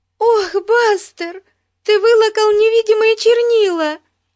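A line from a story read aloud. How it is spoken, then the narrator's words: Near-tearful shout. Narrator (Russian): Чуть не плача закричала Бетси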